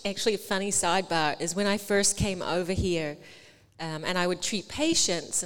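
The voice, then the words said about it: New Zealand, Australian or English accent. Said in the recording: “you're gonna kill me on the accent because I mean it's hard. It's like New Zealand, Australia, England.”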